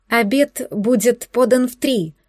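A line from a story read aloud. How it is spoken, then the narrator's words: Timid young woman. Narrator (Russian): робко подала голос девушка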